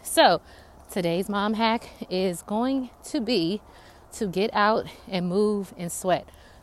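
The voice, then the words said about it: Slightly out of breath. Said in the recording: “I might be out of breath because I am walking outside”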